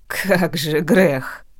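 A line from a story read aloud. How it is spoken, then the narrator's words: Snorting. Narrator (Russian): фыркнула мама Лена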